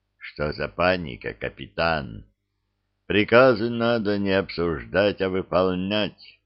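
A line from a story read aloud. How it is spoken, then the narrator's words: Quiet, flat voice. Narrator (Russian): голос, показавшийся мне знакомым, говорит тихим, бесцветным голосом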